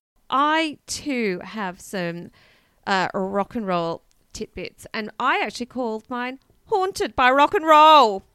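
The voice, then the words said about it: Australian accent. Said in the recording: “Why do I always sound so Australian?”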